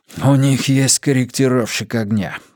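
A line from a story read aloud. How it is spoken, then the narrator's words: Man's breathless exhale. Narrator (Russian): выдохнул мужчина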